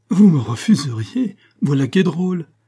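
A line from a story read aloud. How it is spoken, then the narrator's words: Exclaiming while laughing. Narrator (French): s'écria Lataste en riant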